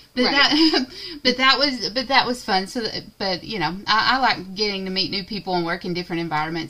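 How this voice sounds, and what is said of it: Southern American drawl. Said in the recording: “I'm supposed to be safe here and not get criticized for my southern drawl ... oh, I just love your accent”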